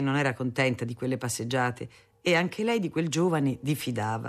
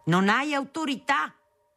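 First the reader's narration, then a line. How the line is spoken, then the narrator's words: Father yelling. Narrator (Italian): le urlava mio padre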